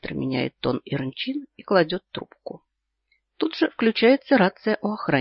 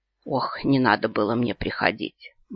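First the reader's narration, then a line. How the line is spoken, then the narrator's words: Mumbling. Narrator (Russian): бормочет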